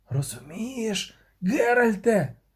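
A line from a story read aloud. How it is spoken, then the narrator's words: Whispered. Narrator (Ukrainian): прошепотів Любисток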